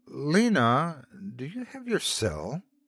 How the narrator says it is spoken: I asked hesitantly

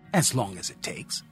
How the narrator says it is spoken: she snapped back

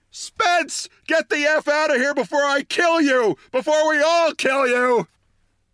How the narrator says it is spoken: our nicest, sweetest news editor stood up on her desk and screamed

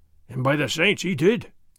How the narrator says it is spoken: Sergeant Gonzalez growled

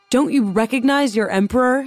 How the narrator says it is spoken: shouted

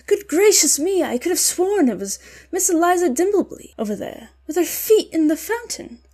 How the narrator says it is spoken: exclaim

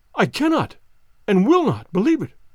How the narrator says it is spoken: cried the banker, with an ashen face

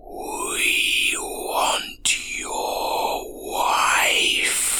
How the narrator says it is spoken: Leaning in close, it whispered

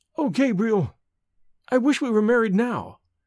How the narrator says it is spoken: cried Evelyn in sudden distress

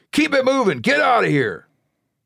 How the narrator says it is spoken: again more angrily

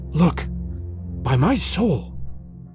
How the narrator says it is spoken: he whispered, and for the first time in my experience, I knew what it was to hear tears of terror in a human voice

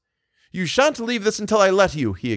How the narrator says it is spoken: he exclaimed

